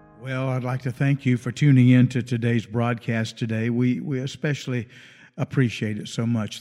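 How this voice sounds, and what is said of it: Voice slightly worn from illness. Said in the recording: “I've been a bit under the weather this last month or so... Still not quite 100%. You might could tell that in my voice”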